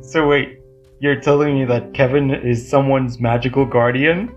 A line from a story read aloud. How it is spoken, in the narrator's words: Nicholas laughed so hard, the sound banged on the windows of the car